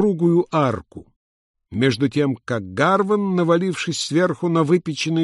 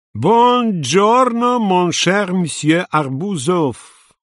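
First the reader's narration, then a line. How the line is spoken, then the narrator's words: Sing-song exclamation. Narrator (Russian): воскликнул нараспев акробат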